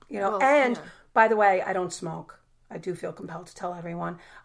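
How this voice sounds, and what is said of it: Raspy voice with a cold. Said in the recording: “I'm sick, and look, I have an accent... I have a natural raspy voice... I'm very aware that I have a raspy voice... But I do have a cold, and it's my voice.”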